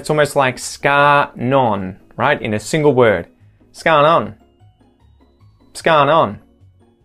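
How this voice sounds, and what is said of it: Contracted, nasal Australian accent. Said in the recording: “really contracted and almost made more nasal, right? To sort of accentuate that Australian accent.”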